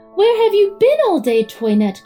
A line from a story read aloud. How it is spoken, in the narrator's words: cried the children